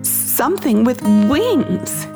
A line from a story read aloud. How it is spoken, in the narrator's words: She paused and then exclaimed